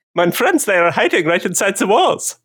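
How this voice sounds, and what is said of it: Cute little kid German accent. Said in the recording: “Could you do a cute little German accent when you do that? ... Can I do a little kid German accent?”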